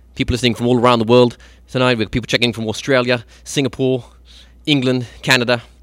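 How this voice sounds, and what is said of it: Poor impression of a radio DJ. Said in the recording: “doing a horrible impression of Zane Lowe from BBC Radio 1”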